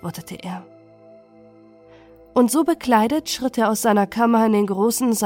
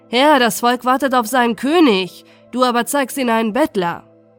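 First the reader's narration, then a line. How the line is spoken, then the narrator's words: Nobles call out laughing. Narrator (German): die Edlen lachten, und einige riefen ihm zu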